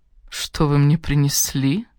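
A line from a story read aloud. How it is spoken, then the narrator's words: Deep purring voice. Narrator (Russian): промурлыкала Сара глубоким грудным голосом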